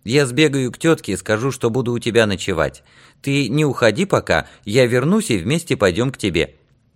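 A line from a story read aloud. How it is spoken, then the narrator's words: Cheerful. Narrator (Russian): весело сказал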